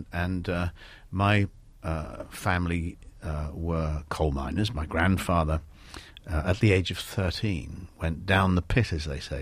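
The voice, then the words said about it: North London accent. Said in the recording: “you don't have a Welsh accent. You grew up in London. ... I speak with a North London accent”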